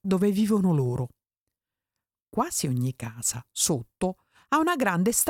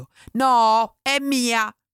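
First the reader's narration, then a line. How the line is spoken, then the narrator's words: Yelling. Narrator (Italian): aveva urlato Refè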